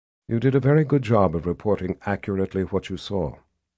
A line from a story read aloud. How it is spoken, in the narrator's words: Nikki said in a gentler tone